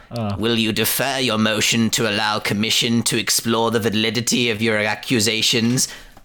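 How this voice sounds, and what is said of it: Imitates a film villain's voice. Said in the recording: “This is Palpatine, right? ... I'm going to do his voice as well.”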